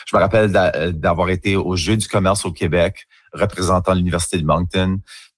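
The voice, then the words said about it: Acadian French accent. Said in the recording (French): “c'est juste mon accent d'Acadie. C'est comme ça qu'on parle.”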